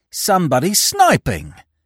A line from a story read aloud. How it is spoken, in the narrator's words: cried the man